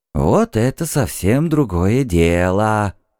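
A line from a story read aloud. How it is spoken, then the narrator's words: Grumbling. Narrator (Russian): пробурчал Куш Тенгри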